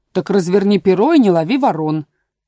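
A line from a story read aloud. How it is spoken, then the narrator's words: Angry interruption. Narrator (Russian): сердито перебила овца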